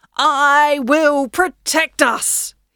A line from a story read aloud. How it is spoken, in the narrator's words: he bellowed